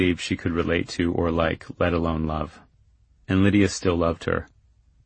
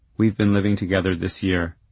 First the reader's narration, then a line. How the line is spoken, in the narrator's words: she said